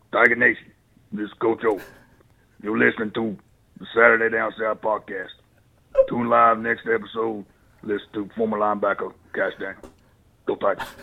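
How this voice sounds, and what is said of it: Imitates another person's voice. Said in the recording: “Coach O impression ... Yours is spot on.”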